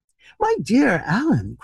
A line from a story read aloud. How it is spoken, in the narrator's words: cried Hughie